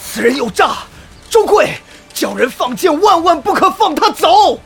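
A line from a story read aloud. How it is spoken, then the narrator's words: Shout. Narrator (Chinese): 孔岭踉跄着半跪在地，冲周贵喊道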